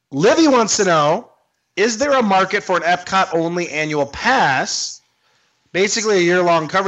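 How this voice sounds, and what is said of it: Usual voice. Nothing is said of it.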